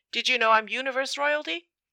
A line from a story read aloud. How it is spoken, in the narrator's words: exclaims jovially